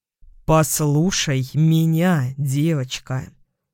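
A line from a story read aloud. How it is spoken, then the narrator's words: Slow, deliberate, clipped. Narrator (Russian): сказал он медленно, чеканя каждое слово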